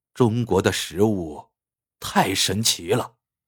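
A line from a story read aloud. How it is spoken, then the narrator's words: Admiring, clicking tongue. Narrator (Chinese): 评委啧啧赞叹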